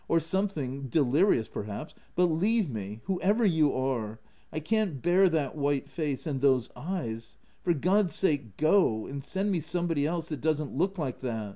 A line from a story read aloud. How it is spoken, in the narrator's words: cried he